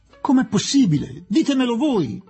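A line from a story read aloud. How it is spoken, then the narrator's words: Desperate childlike exclamation. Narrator (Italian): esclamò disperato come un bambino Aziz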